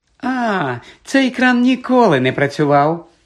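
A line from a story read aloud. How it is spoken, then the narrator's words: Cheerful. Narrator (Ukrainian): весело сказала Мірта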